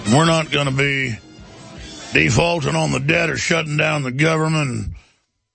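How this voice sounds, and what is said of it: Imitates another person's voice. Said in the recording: “this is my best imitation of him”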